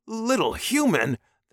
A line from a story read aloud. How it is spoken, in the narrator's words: the man hissed